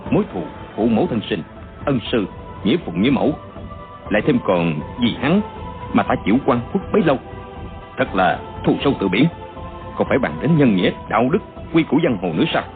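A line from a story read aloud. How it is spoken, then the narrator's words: Soft, venomous, resolute. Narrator (Vietnamese): chàng chỉ nói khẽ nhưng đầy oán độc, tưởng như chém đinh chặt sắt không bằng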